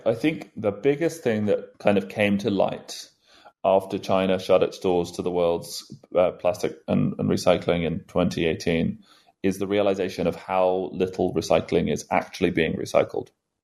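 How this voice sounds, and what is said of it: British accent. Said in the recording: “as you can probably tell from the accent here in the UK”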